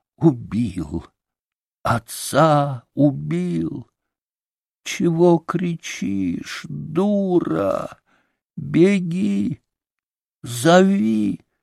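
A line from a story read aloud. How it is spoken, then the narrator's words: Quiet incoherent babbling. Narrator (Russian): Григорий же лепетал тихо и бессвязно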